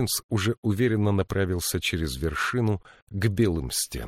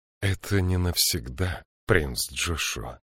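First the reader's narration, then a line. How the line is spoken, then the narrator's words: Soft, gentle. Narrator (Russian): мягко заговорила Джилой, словно ей не хотелось разрушать его настроение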